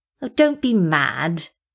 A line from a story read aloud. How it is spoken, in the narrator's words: he whined teasingly